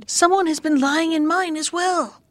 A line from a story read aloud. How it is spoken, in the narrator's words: The others shouted